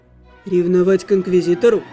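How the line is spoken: Skeptical scoff. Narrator (Russian): скептически хмыкнул Алиорн

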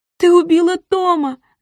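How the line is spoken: Shouting. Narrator (Russian): закричала Гвен

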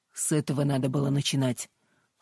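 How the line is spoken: Dry. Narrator (Russian): сухо ответил Вуди

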